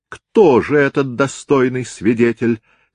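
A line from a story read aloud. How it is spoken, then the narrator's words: Plain. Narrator (Russian): спросил сэр Роберт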